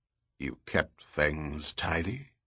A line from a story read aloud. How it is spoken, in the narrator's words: Goyette asked in a hushed voice